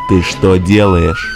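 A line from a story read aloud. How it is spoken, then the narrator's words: Menacing growl. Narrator (Russian): Угрожающе прорычал работорговец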